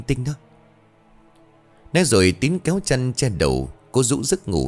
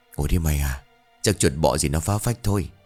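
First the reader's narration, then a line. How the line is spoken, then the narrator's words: Tired mutter. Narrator (Vietnamese): Mệt mỏi quay lại giường, Tín lẩm bẩm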